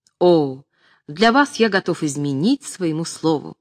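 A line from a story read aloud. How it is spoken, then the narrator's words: Ecstatic exclamation. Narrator (Russian): восторженно воскликнул Калинский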